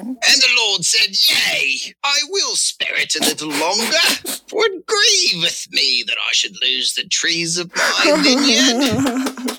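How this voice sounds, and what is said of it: Wandering put-on Australian accent. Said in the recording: “read verse 51 with an Australian accent ... Sounds like pirate talk. ... My accent wanders.”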